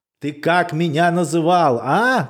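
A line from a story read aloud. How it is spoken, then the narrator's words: Shouting. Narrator (Russian): кричала она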